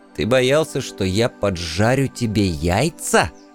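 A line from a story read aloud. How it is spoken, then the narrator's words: Barely restrained hiss. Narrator (Russian): едва сдерживаясь, прошипел я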